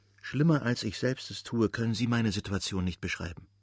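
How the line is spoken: Quiet. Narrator (German): sagte nur leise

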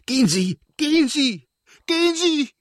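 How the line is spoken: Screamed. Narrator (German): schrie sie

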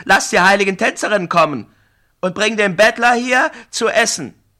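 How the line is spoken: Laughing shout. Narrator (German): rief Brafane lachend

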